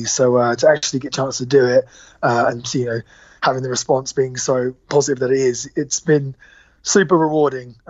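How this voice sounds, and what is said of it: Worn-out, tired-sounding voice. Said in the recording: “You can tell from my voice, I've been a bit worn out.”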